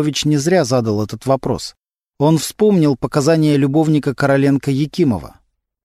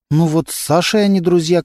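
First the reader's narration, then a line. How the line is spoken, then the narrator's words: Timid reply. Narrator (Russian): как-то робко ответила Антонина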